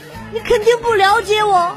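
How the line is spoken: Crying woman. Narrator (Chinese): 她看到之后哭了，然后把花一摔，说

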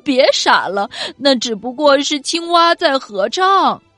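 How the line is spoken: Laughing. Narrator (Chinese): 夜晚的小猴子笑着说

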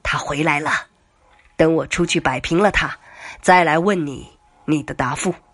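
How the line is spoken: Hushed, laughing. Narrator (Chinese): 程飞压低声音笑着对许飞说

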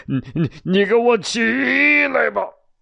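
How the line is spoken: Roaring. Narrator (Chinese): 大吼一声

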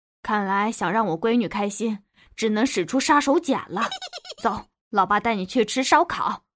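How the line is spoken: Coaxing father. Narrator (Chinese): 我爸逗了我半天，看我不笑，他就站起来说

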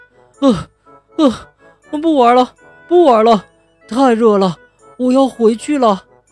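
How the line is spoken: Panting heavily. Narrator (Chinese): 小花猫喘着粗气说

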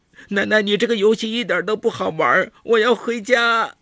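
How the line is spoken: Frightened loud shouting. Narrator (Chinese): 明涵吓了一跳，大声喊叫着

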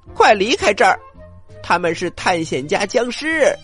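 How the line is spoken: Loud shout. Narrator (Chinese): 冰冻生菜大声的喊

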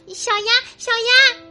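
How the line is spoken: Loud shout. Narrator (Chinese): 小林大叫

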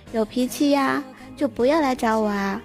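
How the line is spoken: Sighing grumble. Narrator (Chinese): 他叹口气，还不忘唠叨一句

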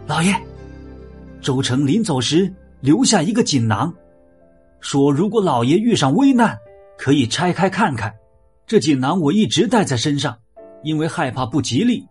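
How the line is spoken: Sudden cry. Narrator (Chinese): 石崇的家丁突然叫起来

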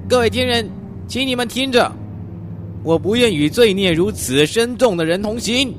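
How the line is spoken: Loud calling out. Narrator (Chinese): 松玛塔就高声的向森林叫喊

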